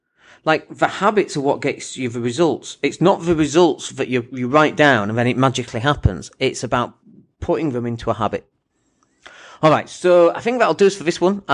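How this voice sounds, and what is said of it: Quiet, hushed speaking voice. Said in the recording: “My voice is a little bit quiet because the little ones asleep upstairs.”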